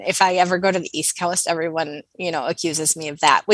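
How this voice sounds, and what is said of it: North American accent, slight twang. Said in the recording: “your accent is terrific... A lot of people say I sound Canadian... you'll catch a little bit of twang”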